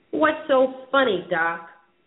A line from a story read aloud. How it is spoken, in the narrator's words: Earl snapped